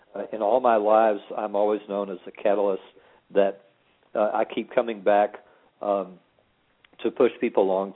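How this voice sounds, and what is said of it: Voice giving out, strained. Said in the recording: “Oh, I'm sorry to lose my voice.”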